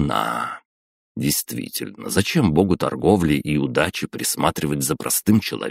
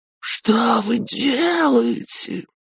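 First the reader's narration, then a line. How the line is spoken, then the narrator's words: Agonized howl. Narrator (Russian): Мученически взвыл Прокруст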